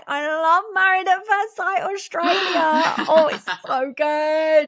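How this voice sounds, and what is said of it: Put-on Australian accent. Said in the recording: “this is my really good Australian accent”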